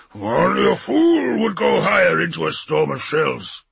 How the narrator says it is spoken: he growled

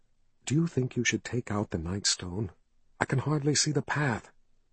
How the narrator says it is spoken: Kalin whispered

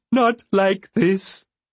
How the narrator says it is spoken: Beloved wailed

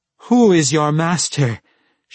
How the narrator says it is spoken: she cried

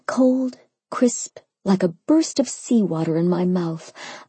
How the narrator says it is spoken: I moaned around the fork

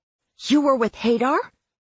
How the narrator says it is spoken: Claire said sharply

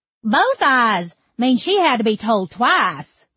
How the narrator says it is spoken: the other cackled

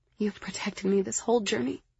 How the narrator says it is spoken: I whispered

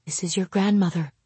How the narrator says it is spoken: I breathed

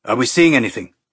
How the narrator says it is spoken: Sagala asked, his voice tight and tense

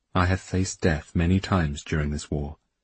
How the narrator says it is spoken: he told her quietly, seriously

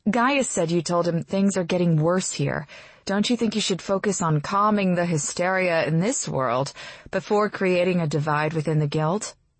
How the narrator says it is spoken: Perry sighs

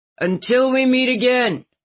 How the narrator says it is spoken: Calvin called out

